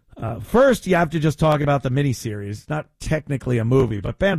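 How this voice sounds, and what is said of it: Usual voice. Nothing is said of it.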